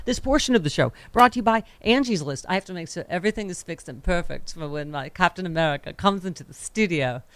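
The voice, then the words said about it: Weird put-on accent. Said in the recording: “Why am I talking in this weird accent?”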